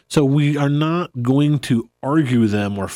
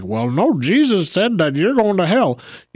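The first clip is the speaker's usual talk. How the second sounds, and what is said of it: Put-on Southern accent. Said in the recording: “there's the southern accent again. Yeah, there it is again.”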